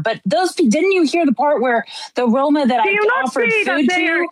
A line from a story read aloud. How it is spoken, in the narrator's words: they yelled at me